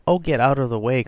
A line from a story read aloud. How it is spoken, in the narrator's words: cried Warner almost good-humouredly